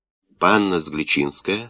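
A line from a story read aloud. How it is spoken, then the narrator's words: Stern question. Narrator (Russian): строго спросил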